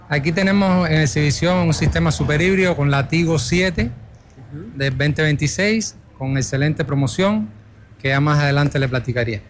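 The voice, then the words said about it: Cuban Spanish accent. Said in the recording (Spanish): “Ese acento no es de acá. ... Soy cubano”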